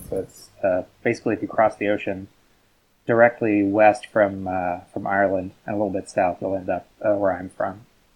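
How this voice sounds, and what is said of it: Canadian Newfoundland accent. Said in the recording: “as you can tell by my accent, I'm not from the UK. I am Canadian. I'm from a Atlantic province called Newfoundland.”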